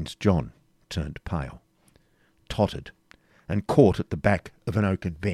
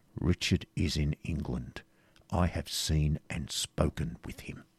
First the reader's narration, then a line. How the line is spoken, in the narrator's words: answered De Bracy, he uttered, in a low and emphatic tone